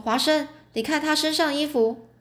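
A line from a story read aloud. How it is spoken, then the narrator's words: Sudden loud speech. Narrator (Chinese): 突然，福尔摩斯又大声说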